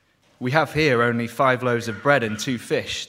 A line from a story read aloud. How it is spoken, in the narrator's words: they answered